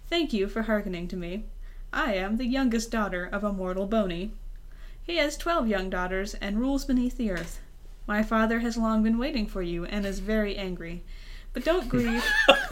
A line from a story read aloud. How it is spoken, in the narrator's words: Blushing, she said in a pleasing voice